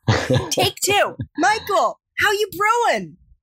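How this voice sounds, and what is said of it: Attempted New York accent. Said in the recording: “I clearly didn't have my New York accent finely tuned”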